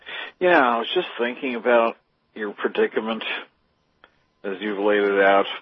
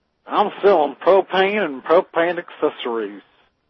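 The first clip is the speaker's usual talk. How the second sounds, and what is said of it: Hank Hill impression. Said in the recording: “Mr. Hank Hill”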